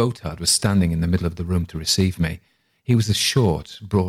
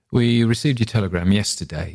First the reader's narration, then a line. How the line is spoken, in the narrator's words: he said